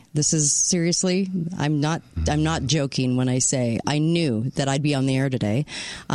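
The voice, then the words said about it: Hoarse, partly lost voice. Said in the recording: “my voice today, yeah, I sound a little saucy today ... I started losing my voice about 24 hours ago”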